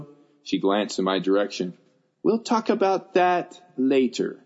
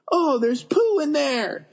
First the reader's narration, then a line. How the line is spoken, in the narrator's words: he screamed